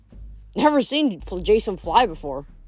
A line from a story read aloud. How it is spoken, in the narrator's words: Percy grumbled